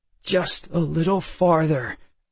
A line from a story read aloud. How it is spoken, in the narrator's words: I said, my voice reedy with forced calm